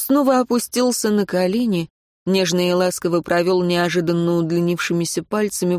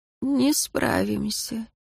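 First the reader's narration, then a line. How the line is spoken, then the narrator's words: Quiet, dead man. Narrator (Russian): тихо сказал мертвец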